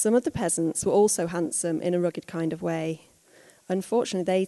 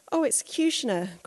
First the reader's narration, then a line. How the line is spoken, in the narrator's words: cried